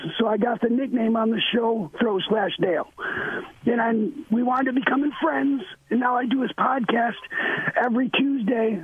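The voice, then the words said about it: Raspy, damaged-sounding voice. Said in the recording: “That's why I talk crazy like this... So that's why I talk all raspy like this.”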